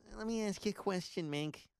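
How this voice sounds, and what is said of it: Imitates another person's voice. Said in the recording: “That's not really a good imitation, but I tried.”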